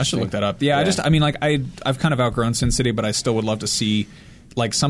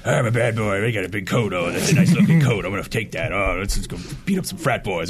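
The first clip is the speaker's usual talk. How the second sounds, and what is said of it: Marvin impression, Sin City character. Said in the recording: “Good Marvin impression.”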